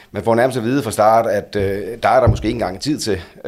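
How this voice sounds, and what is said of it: Funen Danish regional accent. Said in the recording (Danish): “har jo den, den, den fornemmeste fynske accent ... Det er næsten som at høre vores håndboldlandstræner øh, tale ... Hvis man lukker øjnene, så er det fuldstændig samme accent”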